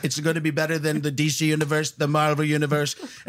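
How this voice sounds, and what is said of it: Imitates another person's voice. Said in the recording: “That's like Caliendo busting into a Donald Trump. ... I was trying to do an impression.”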